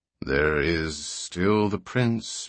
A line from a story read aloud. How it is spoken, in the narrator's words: murmured Comason almost to himself